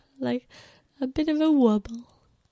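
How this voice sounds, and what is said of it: Poor attempt at British accent. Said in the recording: “Is that a British accent? ... No, that wasn't good.”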